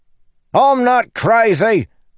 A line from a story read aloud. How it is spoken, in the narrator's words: Lopin yelled back